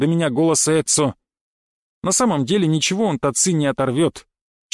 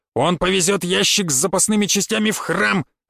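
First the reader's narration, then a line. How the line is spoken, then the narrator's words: Barking. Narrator (Russian): рявкнул Эцо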